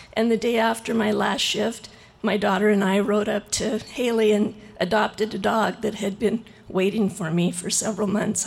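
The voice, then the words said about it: Shaky voice from being cold. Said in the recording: “I'm a little cold. That's why my voice is shaken.”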